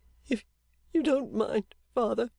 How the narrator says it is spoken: said little Dorrit, trying to bring her sobbing to a close

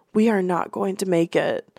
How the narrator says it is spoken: his voice broke, a trembling whisper

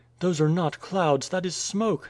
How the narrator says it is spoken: exclaimed Nadia

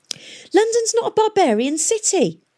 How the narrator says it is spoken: shouted Tom

